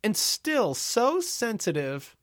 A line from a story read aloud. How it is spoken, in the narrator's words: Gloria cooed